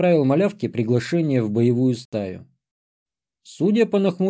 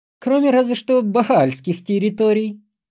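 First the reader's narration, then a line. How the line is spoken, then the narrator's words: Nasty giggle. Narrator (Russian): хихикнула Лилит гнусно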